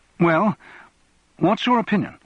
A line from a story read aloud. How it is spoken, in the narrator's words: he asked anxiously